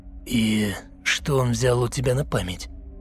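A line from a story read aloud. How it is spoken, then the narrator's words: Hoarse sunken voice. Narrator (Russian): спросил осевшим голосом Василий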